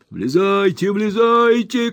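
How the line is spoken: Old man shouting. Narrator (Russian): кричал старик Ордль

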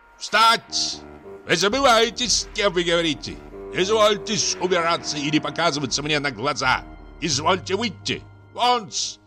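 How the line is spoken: Window-rattling loud shout. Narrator (Russian): Шмыгалов крикнул так громко, что даже дрогнули стекла

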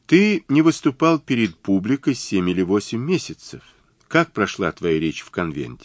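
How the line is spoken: Calm question. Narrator (Russian): спокойно спросила

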